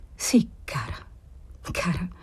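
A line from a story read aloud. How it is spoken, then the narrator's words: Stammered. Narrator (Italian): balbettò lui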